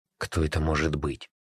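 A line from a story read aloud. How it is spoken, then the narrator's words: Whispering. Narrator (Russian): зашептал Костя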